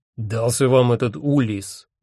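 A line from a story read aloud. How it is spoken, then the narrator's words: Scoffing snort. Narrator (Russian): хмыкнул Один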